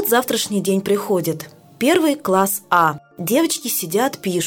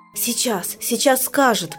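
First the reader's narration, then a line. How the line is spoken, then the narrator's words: Muttering. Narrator (Russian): бормочет Маруся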